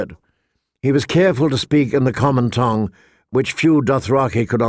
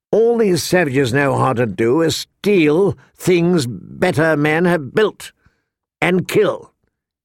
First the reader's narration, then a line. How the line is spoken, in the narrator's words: went on bitterly